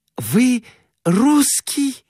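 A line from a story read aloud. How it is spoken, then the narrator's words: Exclaimed. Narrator (Russian): воскликнула она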